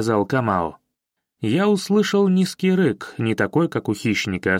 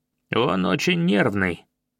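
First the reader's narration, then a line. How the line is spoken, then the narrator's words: Quiet monotone. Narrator (Russian): продолжил Камао негромким монотонным голосом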